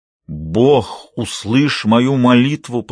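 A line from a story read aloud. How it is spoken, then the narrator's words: Growling prayerful voice. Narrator (Russian): произнес Лестер рычащим, я действительно молюсь, голосом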